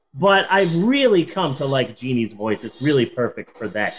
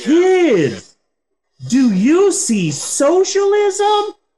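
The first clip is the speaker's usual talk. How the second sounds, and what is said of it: Cartoon explorer girl voice. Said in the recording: “a Dora accent, a Dora the Explorer accent”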